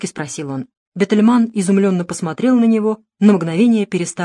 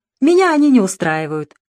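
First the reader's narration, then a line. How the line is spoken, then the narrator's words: Cheerful reply. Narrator (Russian): весело ответил Дронго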